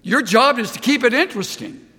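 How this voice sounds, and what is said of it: Yelling, loud passionate preaching. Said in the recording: “Why am I yelling?”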